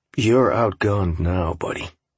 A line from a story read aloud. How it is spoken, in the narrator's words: I said coldly